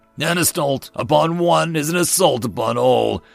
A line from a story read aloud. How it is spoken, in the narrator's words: the big biped rumbled